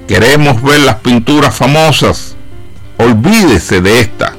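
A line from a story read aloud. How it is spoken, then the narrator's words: Distant shout from back. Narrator (Spanish): una voz del fondo de la habitación gritó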